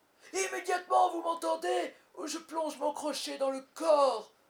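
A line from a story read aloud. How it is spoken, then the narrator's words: Shout. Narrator (French): cria Peter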